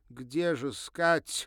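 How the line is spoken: Desperate exclamation. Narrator (Russian): отчаянно воскликнула

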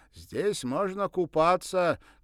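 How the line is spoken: Shouting after someone. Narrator (Russian): крикнул он вслед

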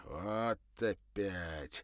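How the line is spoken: Grumbling voice. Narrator (Russian): ворчливым голосом сказал

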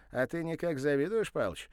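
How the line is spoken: Cheerful teasing. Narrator (Russian): весело подразнил его Ануфренко

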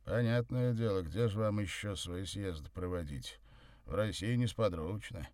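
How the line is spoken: Grumble. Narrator (Russian): буркнул Савва

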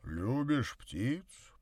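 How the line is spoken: Deep bass voice. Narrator (Russian): пробасил Горький

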